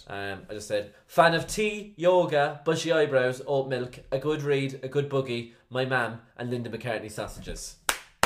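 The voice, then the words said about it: Irish accent. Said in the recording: “Irish... because you're Irish, like people love the Irish accent”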